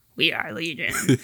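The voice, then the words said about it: Creepy alien voice. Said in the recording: “in that like alien voice”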